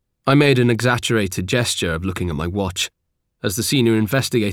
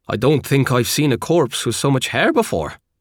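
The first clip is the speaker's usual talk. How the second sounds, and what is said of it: Irish accent. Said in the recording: “Irish accent”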